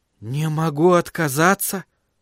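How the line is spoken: Whispered. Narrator (Russian): прошептал Томас

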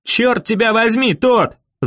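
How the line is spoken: Yelling. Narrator (Russian): заорал Дэви

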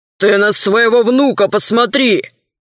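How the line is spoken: Snapping retort. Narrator (Russian): огрызнулся городской голова

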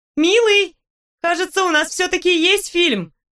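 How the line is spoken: Loud shout from kitchen. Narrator (Russian): громко крикнула я из кухни

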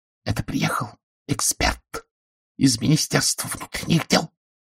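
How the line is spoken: Hissing whisper. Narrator (Russian): сообщила она свистящим шепотом

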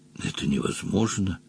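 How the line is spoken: Stunned whisper. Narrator (Russian): ошалело прошептал Джон Том

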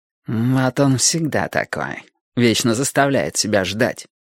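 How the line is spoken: Grumbling. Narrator (Russian): ворчал Милос

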